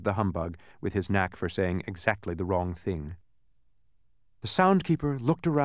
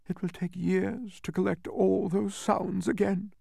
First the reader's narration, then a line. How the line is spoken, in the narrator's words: sobbed